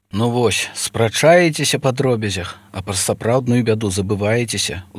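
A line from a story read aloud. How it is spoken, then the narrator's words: Sighing. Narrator (Belarusian): уздыхнуў Язэп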